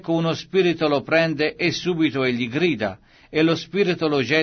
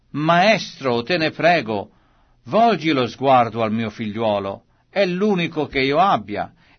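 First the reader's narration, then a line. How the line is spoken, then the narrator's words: Man exclaiming from crowd. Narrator (Italian): un uomo dalla folla esclamò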